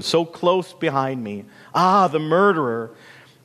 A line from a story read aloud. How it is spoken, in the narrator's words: moaned the wind